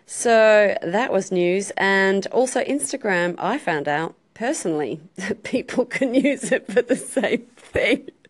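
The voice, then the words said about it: Australian accent. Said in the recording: “I absolutely love your accent. I am such a fan of the Australian accent.”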